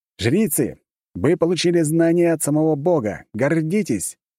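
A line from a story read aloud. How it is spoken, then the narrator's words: Loud proclamation. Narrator (Russian): громко произнес я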